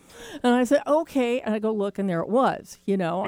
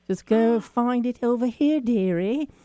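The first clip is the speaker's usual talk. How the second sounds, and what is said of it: Put-on British accent. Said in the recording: “I hear in my head a British accent.”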